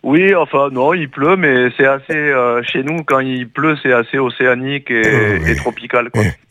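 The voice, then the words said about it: Regional French accent. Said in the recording (French): “il n'était pas de chez nous, on entend son accent”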